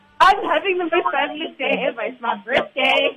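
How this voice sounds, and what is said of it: Happy, cheerful voice. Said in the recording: “You sound so happy.”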